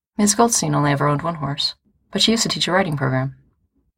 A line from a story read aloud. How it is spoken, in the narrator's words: Judy says